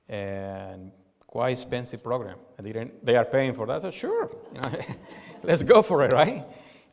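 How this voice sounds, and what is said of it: Strong accent. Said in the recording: “you have some issues with your accent ... you have a strong accent”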